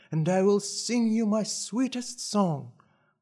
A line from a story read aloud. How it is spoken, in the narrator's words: she cried